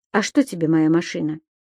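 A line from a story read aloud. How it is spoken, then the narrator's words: Calm question. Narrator (Russian): спокойно спросил Алексей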